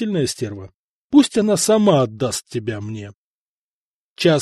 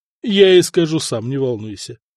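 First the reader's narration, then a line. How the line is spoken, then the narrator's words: Snorting. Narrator (Russian): хмыкнул Куропалат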